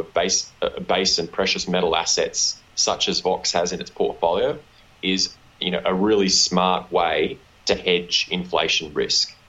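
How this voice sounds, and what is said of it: Australian accent. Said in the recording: “why is your accent so strange ... my unfortunate Australian accent”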